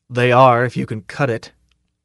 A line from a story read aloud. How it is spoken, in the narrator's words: the fleet sergeant said grimly